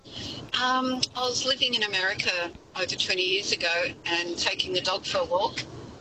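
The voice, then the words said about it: Strong Australian accent. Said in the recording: “the Aussie accent ... I thought you were putting it on”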